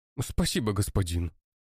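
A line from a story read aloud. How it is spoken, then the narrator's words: Exclamation. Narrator (Russian): воскликнул мужчина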